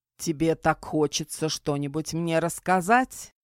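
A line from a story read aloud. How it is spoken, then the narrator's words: Reluctant near growl. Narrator (Russian): почти прорычал меньше всего желающий сейчас говорить англичанин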